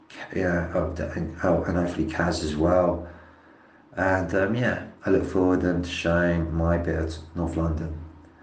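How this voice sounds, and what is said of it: Unusually deep, monotonous worn voice. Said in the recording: “forgive my voice. I don't normally sound so deep-voiced and monotonous, but there was a lot of singing done and a bit of ale drinking.”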